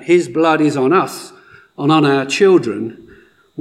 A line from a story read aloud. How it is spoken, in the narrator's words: they shouted back